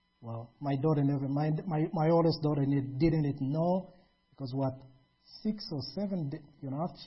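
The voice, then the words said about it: Foreign accent in English. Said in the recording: “with your accent, your foreign accent ... I can't get rid of my accent”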